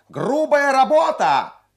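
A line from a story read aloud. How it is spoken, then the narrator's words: Shrill boy's distant shout. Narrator (Russian): пронзительный мальчишеский голос крикнул с галерки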